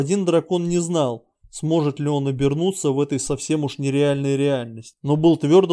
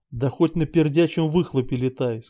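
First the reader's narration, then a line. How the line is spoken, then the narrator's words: Plain. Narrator (Russian): сказал Виктор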